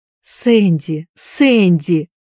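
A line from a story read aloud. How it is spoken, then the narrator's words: Emotional exclamation. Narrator (Russian): воскликнула, наконец, миссис Шафта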